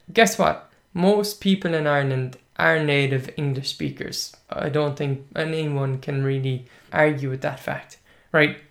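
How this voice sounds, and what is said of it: Irish English accent. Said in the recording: “Hiberno-English, what I'm speaking right now ... We have a certain accent, and accents vary according to the region where you come from in Ireland”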